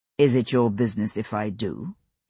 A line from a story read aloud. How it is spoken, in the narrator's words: he replied evenly